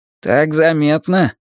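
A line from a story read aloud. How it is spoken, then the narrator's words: Gloomy question. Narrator (Russian): мрачно спрашивает Ромка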